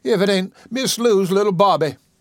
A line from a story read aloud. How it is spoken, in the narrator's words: she cried